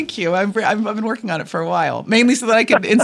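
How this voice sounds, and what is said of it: Usual voice. Nothing is said of it.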